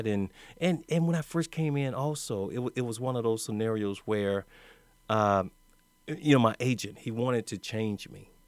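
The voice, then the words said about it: Country accent. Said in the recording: “My country accent ... I was straight up country. I'm still country.”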